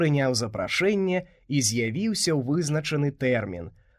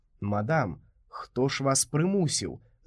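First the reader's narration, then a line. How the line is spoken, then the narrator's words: Plain. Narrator (Belarusian): запытаў я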